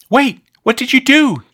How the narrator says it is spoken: gasped Amy

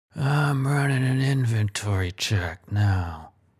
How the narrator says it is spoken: he replies through clenched teeth

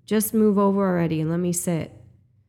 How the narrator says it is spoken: get louder and more aggressive exclaim

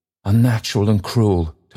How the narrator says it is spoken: Toby cried

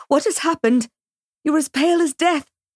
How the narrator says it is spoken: cried, out of breath

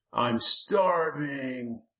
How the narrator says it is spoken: the Lurking whined

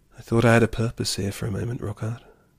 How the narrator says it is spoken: she sighed

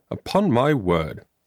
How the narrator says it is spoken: exclaimed the principal

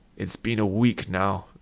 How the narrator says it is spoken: Vish growled at Sid

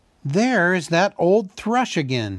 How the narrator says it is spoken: cried

